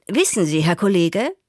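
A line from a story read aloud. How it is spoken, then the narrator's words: Confessing. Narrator (German): bekannte ich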